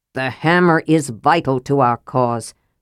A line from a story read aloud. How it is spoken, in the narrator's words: Sturm said angrily